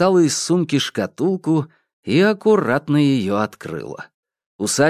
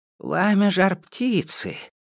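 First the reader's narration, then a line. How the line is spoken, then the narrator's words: Witch muttering. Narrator (Russian): принялась бормотать колдунья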